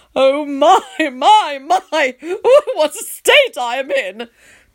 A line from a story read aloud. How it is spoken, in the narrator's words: Tony wails